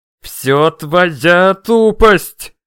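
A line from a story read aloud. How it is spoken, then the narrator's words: Angry, through gritted teeth. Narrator (Russian): злобно процедил Рамю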